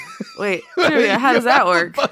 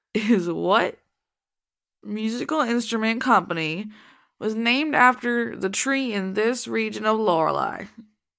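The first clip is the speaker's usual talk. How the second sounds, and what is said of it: Put-on Southern drawl. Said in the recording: “I gotta make up a voice ... I was gonna do a southern drawl”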